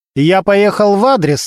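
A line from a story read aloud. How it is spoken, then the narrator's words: Bossy commanding tone. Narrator (Russian): начальственным тоном сказал он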